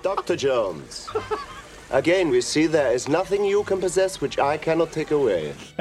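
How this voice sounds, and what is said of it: Belloc villain accent impression. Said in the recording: “impression of Belloc from Raiders of the Lost Ark ... he's got the villain accent ... The communist accent.”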